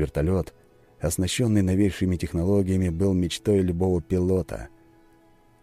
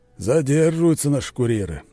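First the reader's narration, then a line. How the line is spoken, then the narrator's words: Impatient grumbling. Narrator (Russian): проворчал Петров, нетерпеливо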